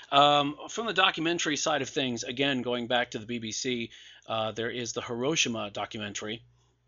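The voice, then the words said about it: Hoarse, fading voice. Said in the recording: “God, I'm losing my voice. That's not good.”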